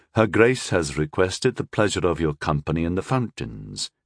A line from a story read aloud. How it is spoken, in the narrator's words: he said so smoothly it could have issued from a pitcher of treacle